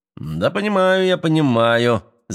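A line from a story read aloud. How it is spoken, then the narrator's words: Laughing. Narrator (Russian): засмеялся Кашко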